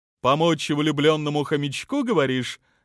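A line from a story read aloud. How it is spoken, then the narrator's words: Asked back cheerfully. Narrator (Russian): весело переспросила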